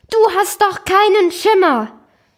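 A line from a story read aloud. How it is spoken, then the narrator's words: Calling out. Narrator (German): das soziale Drama rief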